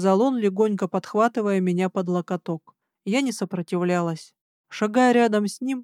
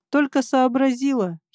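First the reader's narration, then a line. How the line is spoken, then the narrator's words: Giggling. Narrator (Russian): хихикнул он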